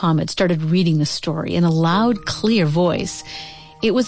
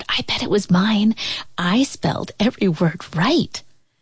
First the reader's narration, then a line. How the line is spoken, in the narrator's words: Kwame whispered